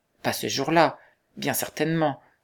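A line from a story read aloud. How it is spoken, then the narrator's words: Exclaimed. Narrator (French): s'écria Philippe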